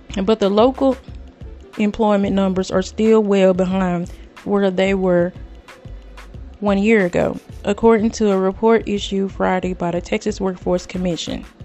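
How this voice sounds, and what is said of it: Strained, failing voice. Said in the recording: “Excuse me. ... Oh, sorry, my voice is going somewhere.”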